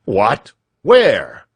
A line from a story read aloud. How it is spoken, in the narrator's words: shouted Mr